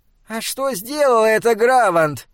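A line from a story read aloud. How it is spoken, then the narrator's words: Squeaky voice. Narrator (Russian): пропищала Дуралоу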